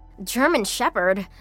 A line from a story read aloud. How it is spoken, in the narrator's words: Jenny panted, also struggling to catch her breath